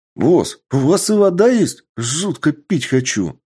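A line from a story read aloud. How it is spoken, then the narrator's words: Exclamation. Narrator (Russian): Воскликнул Гай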